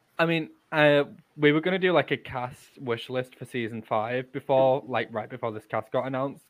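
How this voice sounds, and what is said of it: Yorkshire accent. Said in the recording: “Trying to read and pronounce things in a Yorkshire accent is very difficult.”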